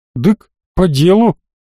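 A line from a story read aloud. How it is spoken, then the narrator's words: Exhaled. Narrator (Russian): выдохнул Линк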